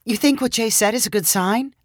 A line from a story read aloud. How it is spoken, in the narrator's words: asked Julia